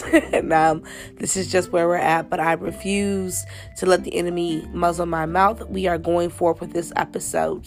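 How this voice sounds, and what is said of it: Hoarse, stuffy-nosed voice. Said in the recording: “Please excuse my stuffy nose and my hoarse voice ... it's a season of hoarseness.”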